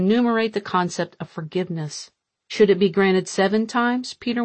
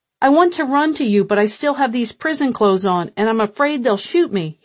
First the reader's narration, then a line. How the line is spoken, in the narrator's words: shouted, only half-joking